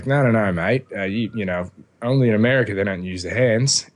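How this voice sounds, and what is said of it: Good put-on Australian accent. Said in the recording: “that's a pretty good Australian accent.”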